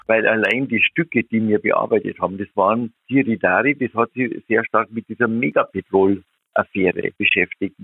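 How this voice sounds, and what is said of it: Older man, strong regional dialect, phone. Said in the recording (German): “Die beiden älteren Herren ... und ... haben übers Telefon miteinander gesprochen und deshalb ist der Ton für ein paar Sekunden nicht ganz optimal, zumal beide Dialektsprecher sind. Es ist also manchmal ganz ehrlich etwas schwerer, sie zu verstehen.”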